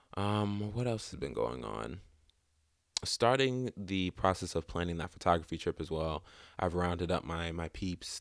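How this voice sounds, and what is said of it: Sore-throated voice with cracks. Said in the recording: “I'm a little under the weather now ... my sore throat ... excuse me if I sound a little weird or have some voice cracks”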